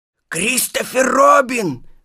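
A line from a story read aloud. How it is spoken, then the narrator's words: Whispered shout. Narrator (Russian): крикнул шепотом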